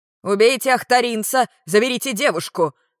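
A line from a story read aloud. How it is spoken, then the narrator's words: Guard shouting. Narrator (Russian): крикнул кто-то из стражников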